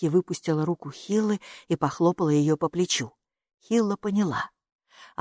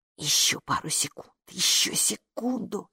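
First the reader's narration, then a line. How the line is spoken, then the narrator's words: Muttering into ear. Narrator (Russian): бормотал халат Майки на ухо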